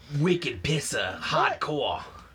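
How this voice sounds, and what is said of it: Put-on Boston accent. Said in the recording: “I obviously haven't lived in Boston ... It's a hard accent to keep up.”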